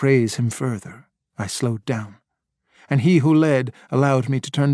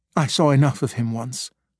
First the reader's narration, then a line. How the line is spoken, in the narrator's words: Quickly I said